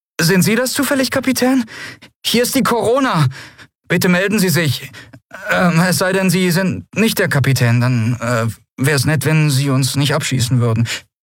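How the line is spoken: Nervous questioning voice. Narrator (German): eine nervöse Stimme fragte

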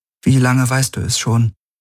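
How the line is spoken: Forced calm question. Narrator (German): Sie wusste nicht, wie sie ihre Stimme weitgehend ruhig halten konnte, als sie fragte

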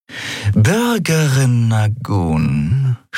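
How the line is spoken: Purring. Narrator (German): schnurrte

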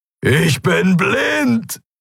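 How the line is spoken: Roaring. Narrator (German): brüllte er

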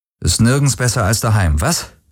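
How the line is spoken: Dry quoting voice. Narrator (German): zitierte Garland Rick mit trockener Stimme

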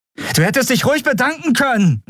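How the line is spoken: Called out. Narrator (German): rief sie

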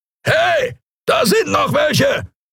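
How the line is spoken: Bellowing. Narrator (German): brüllte eine Skria-Stimme

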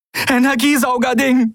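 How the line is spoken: Breathless reply. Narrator (German): gab Andriel atemlos zurück

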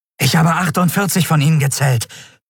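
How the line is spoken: Breathless report. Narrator (German): berichtete der Yadi atemlos

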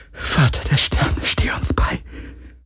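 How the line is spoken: Whispered. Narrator (German): flüsterte sie

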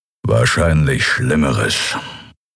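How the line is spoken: Growling from behind. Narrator (German): knurrte Keru hinter ihnen

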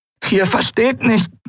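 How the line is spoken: Croaking. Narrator (German): krächzte sie

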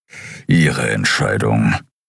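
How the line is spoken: Grumble. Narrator (German): brummte

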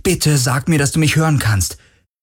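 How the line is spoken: Calling again. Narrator (German): rief er wieder

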